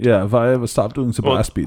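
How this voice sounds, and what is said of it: Vague put-on European accent. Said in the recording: “It's my vague European accent.”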